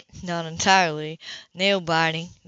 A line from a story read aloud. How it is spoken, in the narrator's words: murmured